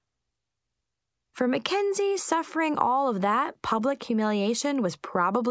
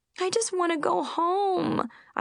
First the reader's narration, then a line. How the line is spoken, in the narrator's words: I whined